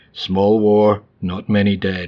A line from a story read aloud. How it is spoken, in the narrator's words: said